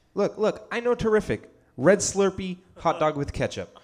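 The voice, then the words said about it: Imitates another person's voice. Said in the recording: “I'm going to also try to do a Donald Trump accent here. if you haven't heard it before, it's pretty good ... You had the cadence”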